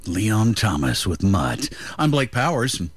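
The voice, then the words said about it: Put-on semi-sexy radio voice. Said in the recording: “semi-sexy voice”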